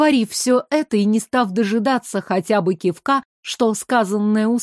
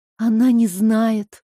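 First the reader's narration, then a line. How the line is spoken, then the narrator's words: Relieved exhale. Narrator (Russian): выдохнула с облегчением Оля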